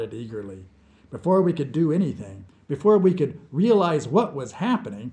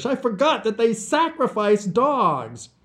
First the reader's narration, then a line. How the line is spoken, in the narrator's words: The hideous old man chattered excitedly